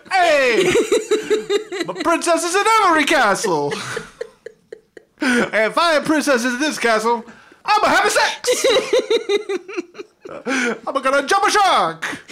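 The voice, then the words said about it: Put-on Fonzie-style character accent. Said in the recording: “Fucking Super Mario Fonzie over here. ... All of my accents just fall apart. I had a decent Fonzie, now it's a Fonzie.”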